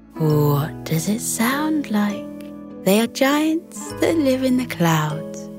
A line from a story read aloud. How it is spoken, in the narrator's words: Bella purred with amusement